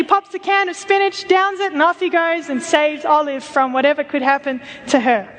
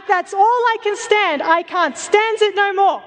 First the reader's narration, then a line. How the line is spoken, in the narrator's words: he explodes and he shouts